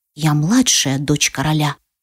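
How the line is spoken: Weary mumble. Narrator (Russian): бормочу, почему-то ощущая невероятную усталость

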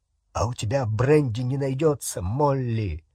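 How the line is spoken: Trembling voice. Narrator (Russian): спросил дрогнувшим голосом Хагрид

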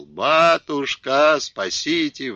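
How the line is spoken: Wailing shout. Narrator (Russian): вопила Дуня

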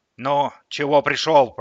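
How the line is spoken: Grumbling. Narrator (Russian): проворчала

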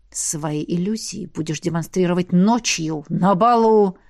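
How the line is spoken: Hissing dragon. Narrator (Russian): прошипел дракон

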